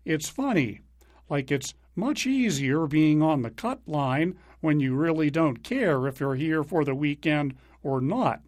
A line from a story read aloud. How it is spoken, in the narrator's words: McIlroy said, chuckling